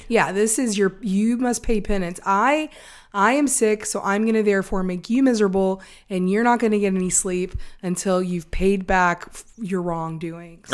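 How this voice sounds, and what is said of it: Raspy voice from a cold. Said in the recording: “Angie immediately developed the most terrible, awful cold ... until she's got her voice back ... you can still hear my voice is still kind of raspy.”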